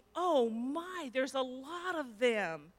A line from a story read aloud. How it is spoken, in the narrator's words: Jenny yelled back to me